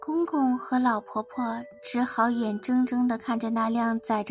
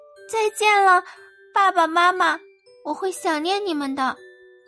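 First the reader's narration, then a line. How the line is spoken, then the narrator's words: Loud shout. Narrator (Chinese): 公主大声喊道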